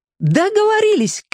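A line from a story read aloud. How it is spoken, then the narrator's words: Shout. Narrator (Russian): крикнула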